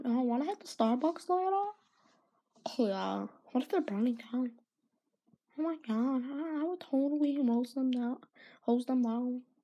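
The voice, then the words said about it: Mocking character voice. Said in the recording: “that was just my impression of the leftist firefighters.”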